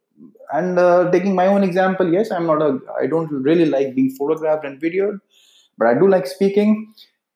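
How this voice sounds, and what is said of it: Indian English accent. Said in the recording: “Being from India, my accent is pretty much Indian.”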